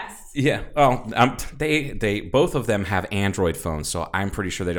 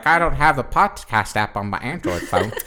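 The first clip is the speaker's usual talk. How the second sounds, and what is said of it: Imitates another person's voice. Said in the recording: “spot on impersonation.”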